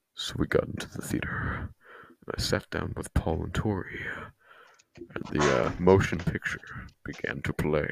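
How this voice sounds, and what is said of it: Menacing dramatic narrator voice. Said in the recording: “I'm gonna do the voice. ... Oh, he's so menacing.”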